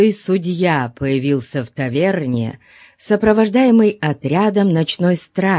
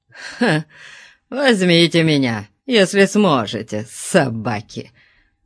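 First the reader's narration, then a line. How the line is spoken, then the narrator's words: Contemptuous snort. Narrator (Russian): презрительно фыркнул он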